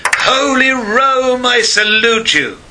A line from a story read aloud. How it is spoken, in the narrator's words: cried